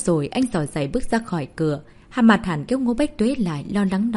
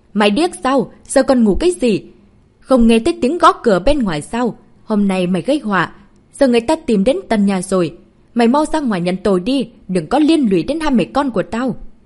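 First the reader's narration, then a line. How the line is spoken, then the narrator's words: Angry shout. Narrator (Vietnamese): bà ta hét lên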